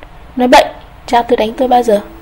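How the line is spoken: Trembling angry voice. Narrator (Vietnamese): Anh đỏ mặt nói giọng run run đầy tức giận

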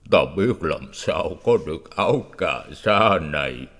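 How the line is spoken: Monk sobbing. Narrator (Vietnamese): sư nức nở

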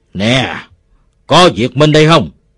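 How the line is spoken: Roaring shout. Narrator (Vietnamese): Một đứa gầm lên

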